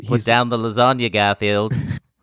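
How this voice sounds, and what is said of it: John Arbuckle impression. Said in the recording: “quite a good John impression”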